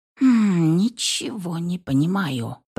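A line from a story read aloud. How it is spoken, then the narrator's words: Muttering witch. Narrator (Russian): пробормотала ведьма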